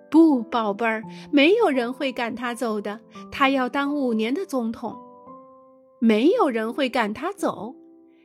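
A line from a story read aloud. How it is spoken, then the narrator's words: Gentle smile. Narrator (Chinese): 季养母的妈妈微微笑了笑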